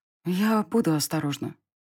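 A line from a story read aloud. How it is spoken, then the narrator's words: Quiet reply. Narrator (Russian): ответила я тихо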